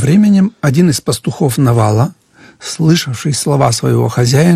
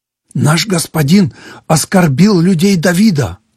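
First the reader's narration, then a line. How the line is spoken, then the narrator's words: Agitated shepherd speaking. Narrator (Russian): взволнованно говорил пастух Авигеи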